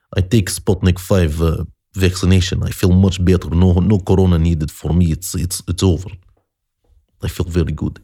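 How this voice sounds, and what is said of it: Put-on bad Russian accent. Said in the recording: “That was my attempt at a crappy impersonation of the Russian accent. Terrible.”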